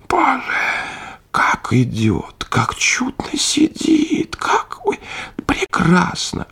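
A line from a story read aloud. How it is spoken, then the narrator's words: Whispering. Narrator (Russian): шептали в свите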